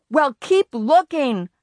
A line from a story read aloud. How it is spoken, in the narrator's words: I yelled